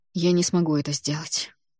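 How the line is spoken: Quiet. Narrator (Russian): негромко сказал он

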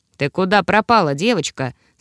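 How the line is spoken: Plain. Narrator (Russian): спросил он

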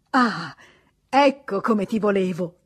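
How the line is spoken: Exclamation. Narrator (Italian): esclamò Rastignac

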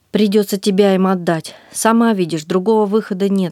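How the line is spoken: Plain. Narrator (Russian): сказал Галбаци

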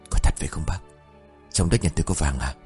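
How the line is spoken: Choked whisper. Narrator (Vietnamese): Âu Khảm thì thầm câu nói ban nãy trong hơi thở nghẹn ứ

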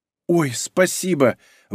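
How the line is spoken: Breathed out. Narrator (Russian): выдохнула Ольга

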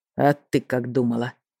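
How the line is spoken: Spiteful words through teeth. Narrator (Russian): злобно процедил Эйсфери

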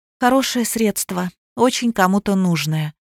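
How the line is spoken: Sigh. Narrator (Russian): вздохнула Алиса

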